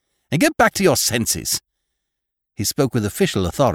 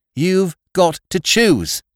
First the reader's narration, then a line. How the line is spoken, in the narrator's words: cried the girls